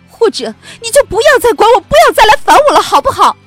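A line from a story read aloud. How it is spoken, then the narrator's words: Hoarse desperate shout. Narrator (Chinese): 他几乎失声的喊道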